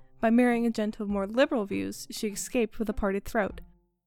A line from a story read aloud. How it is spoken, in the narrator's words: said Sancho with a light laugh